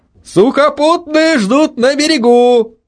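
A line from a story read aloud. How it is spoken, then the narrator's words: Shouted. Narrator (Russian): прокричал Митя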